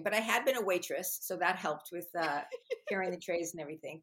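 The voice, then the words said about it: New York accent. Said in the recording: “I took speech lessons to get rid of a New York accent ... I guess this is just how I talk”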